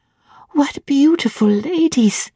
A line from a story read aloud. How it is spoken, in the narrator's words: cried she in English